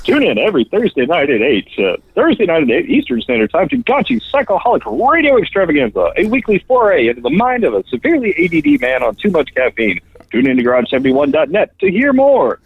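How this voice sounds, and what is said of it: Professional radio announcer voice. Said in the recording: “give it a radio voice ... very, very nice, by the way. Well, very professional.”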